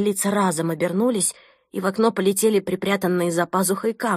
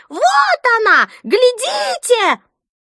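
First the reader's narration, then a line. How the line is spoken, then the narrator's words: Toothless old woman's piercing shriek. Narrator (Russian): беззубая, сморщенная, словно печеное яблоко старуха, пронзительно завизжала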